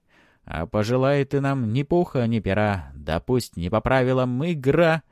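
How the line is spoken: Loud cheerful singing. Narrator (Russian): Бригадир поет громко и бодро

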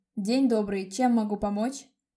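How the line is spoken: Deep bass voice. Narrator (Russian): заговорил басом появившийся за моей спиной Леон

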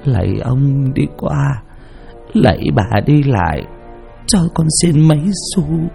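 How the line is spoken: Moaning, pleading. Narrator (Vietnamese): miệng rên rỉ

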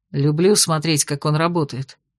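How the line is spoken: Quiet, not disturbing. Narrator (Russian): тихо поделился Кирсан, чтобы не отвлекать мастера

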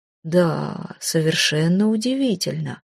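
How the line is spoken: Drawl. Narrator (Russian): протянул глава совета

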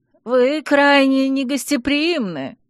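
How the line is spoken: Hoarse rasp. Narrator (Russian): прохрипел принц

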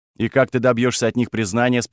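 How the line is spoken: Plain question. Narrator (Russian): спросил я

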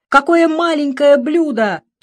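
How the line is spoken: Immediate loud yell. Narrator (Russian): тут же заорала я

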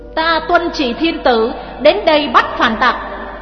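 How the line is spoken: Loud bark. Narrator (Vietnamese): Sứ giả quát lớn

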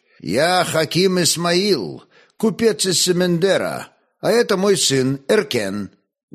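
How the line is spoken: Loud, in Khazar. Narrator (Russian): громко молвил Ерофей-старший на хазарском

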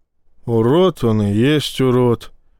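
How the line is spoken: Assistant sighing. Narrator (Russian): вздохнул помощник

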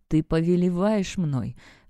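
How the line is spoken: Hoarse rustling whisper. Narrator (Russian): хрипло прошелестел

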